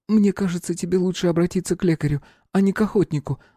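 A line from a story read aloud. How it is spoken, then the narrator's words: Sighing young woman. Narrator (Russian): вздохнула принцесса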